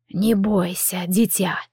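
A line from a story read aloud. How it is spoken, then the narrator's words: Quiet creaky old voice. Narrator (Russian): Проскрипел тихий старческий голос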